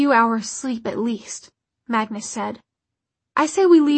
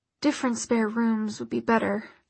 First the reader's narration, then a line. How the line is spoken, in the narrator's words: Alec muttered